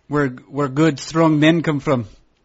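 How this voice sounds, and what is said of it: Poor attempt at British accent. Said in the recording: “That was a terrible accent. ... I was trying to do a pan-British accent.”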